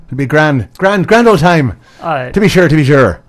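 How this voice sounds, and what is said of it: Put-on Irish accent. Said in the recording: “fake an Irish accent ... I've done it a few times now”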